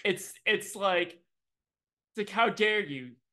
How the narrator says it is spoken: They yelled loudly

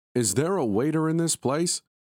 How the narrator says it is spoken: Victor shouted

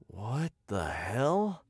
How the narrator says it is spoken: I muttered, staring in bewilderment

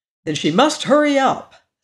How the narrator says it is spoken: said the Tin Woodman impatiently

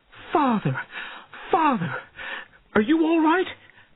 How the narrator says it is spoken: cried

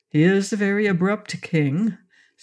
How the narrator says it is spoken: said Pon

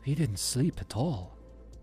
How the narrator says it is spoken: Anna said, her voice low, almost a whisper

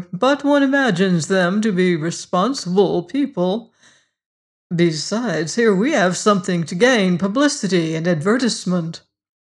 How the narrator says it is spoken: laughed

